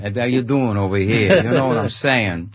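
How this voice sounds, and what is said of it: New York accent. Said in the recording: “you can do the New York accent. You went straight into it.”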